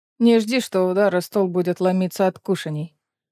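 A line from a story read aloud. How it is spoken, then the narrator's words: Plain. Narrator (Russian): сказал Рену Эдион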